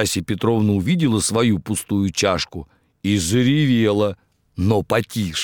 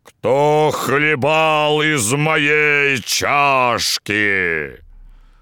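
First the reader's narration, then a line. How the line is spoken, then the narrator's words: Terrifying roar, big bear. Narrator (Russian): Большой медведь заревел страшным голосом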